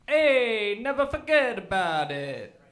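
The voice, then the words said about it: Impression of an Italian accent. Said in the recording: “my impression of Italians”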